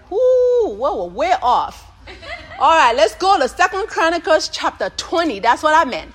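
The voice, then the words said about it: Oklahoma accent. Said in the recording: “I'm from Oklahoma. That's how I would tell my nursing folks that I have an accent ... I'm from Oklahoma and I'm almost from Arkansas ... my accent doesn't matter”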